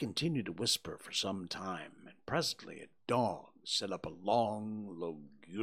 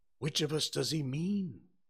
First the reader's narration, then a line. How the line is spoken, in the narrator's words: gasped Huckleberry